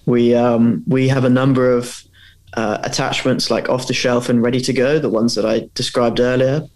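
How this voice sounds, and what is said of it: British accent. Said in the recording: “you can probably tell by my accent that we're based in the UK”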